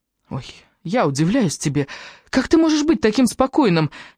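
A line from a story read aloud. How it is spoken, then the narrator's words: Exclaimed almost in tears. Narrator (Russian): едва ли не сквозь слезы воскликнул Джастин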